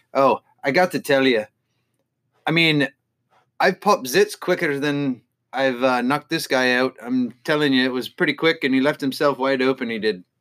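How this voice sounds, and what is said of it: Put-on Irish accent impression. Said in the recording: “Nice Irish accent”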